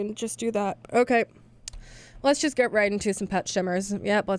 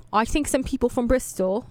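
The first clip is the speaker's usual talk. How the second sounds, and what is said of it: Bad put-on British accent. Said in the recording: “That's a horrible British accent.”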